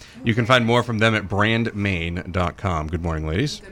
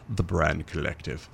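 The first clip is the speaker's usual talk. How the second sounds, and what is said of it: Put-on fancy announcer voice. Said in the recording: “in my fancy voice”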